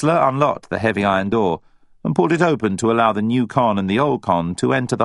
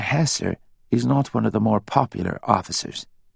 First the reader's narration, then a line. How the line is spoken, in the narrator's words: whispered Quinn